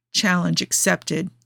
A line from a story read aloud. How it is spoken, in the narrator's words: murmured